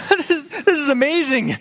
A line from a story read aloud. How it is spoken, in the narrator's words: laugh